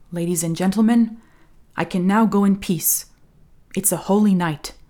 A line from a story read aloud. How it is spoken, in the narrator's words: He suddenly felt an intimate certainty, a kind of epiphany, and said solemnly